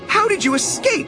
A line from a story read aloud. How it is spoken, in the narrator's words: cried